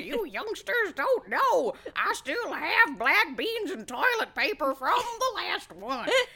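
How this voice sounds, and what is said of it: Put-on elderly voice, faintly Southern. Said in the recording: “all old people sound like this in the future ... even though this isn't very Southern ... That was hardly a Southern accent.”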